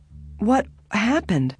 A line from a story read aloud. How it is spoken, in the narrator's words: She asked sleepily